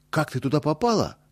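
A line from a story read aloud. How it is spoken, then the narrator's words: Anxious exclamation. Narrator (Russian): тревожно воскликнул Боря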